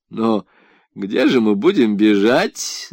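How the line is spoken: Good-natured laugh. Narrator (Russian): засмеялся скороход, добродушно

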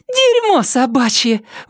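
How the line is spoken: Shout then laughter. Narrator (Russian): выкрикнула Триша, рассмеялась

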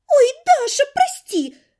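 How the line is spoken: Quick exclamation, young woman. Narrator (Russian): тут же воскликнула девица

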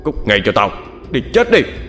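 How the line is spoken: Shouting. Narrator (Vietnamese): Hắn quát lên

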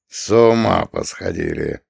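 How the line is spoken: Grumbling. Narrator (Russian): проворчал он

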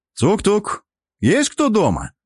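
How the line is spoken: Loud. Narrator (Russian): громко произнес я

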